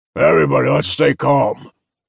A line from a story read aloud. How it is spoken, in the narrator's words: Knox roared